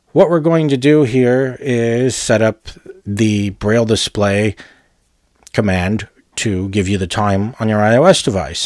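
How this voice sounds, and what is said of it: Congested, stuffed-up voice. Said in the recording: “I sound kind of stuffed up,”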